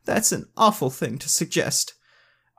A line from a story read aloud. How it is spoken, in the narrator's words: whimpered, hiding her face in her hands